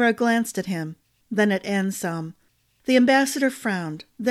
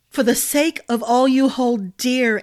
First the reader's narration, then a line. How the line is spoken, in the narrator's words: Ambrose cried